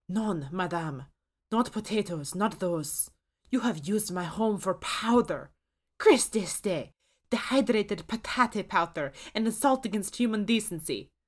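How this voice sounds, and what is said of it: Thick French accent. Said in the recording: “The chef's accent is thickly French”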